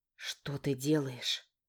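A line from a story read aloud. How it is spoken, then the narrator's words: Whisper. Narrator (Russian): прошептала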